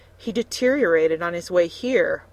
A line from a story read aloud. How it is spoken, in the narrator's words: Melina gasped